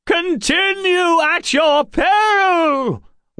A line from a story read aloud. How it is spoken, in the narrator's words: wailed the fifth